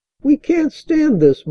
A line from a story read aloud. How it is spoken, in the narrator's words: moaned Toby